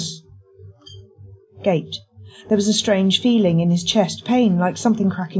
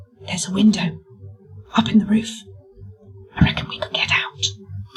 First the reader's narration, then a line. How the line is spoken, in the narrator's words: James whispered